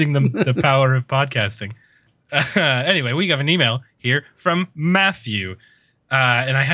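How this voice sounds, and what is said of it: Usual voice. Nothing is said of it.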